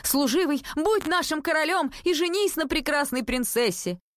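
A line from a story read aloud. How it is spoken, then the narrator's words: Crowd shouting. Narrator (Russian): весь народ закричал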